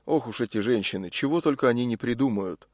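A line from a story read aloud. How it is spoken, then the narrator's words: Student muttering. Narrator (Russian): Наверняка кто-нибудь из учеников пробормотал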